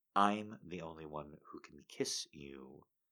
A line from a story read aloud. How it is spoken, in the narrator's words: said softly